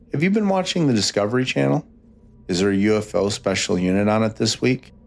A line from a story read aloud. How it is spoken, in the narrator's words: I asked him